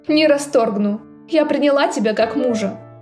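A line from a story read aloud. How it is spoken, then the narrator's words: Pleased snort. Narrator (Russian): довольно хмыкнула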